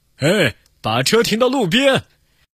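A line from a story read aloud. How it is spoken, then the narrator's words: Loud shout. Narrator (Chinese): 一个大胖警察大声喊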